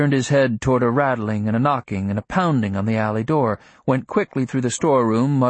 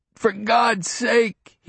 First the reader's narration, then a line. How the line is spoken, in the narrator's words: he groaned